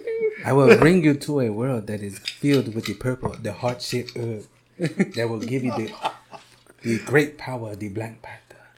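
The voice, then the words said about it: Wakandan Black Panther character accent. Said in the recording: “the Wakanda voice ... It's ridiculous how close he is to that voice ... he's spot on.”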